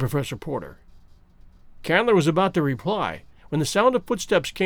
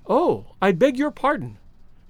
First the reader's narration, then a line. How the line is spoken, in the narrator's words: she exclaimed